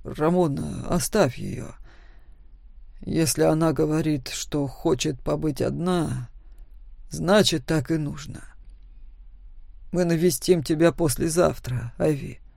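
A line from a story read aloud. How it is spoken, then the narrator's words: Calm. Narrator (Russian): спокойно сказал отец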